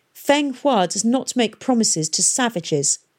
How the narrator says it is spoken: snapped the Keralan girl

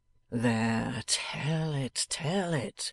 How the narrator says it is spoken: adding in a low voice

